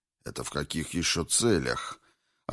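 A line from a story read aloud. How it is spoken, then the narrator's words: Bewildered yet menacing. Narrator (Russian): Растерянно, но грозно удивился доктор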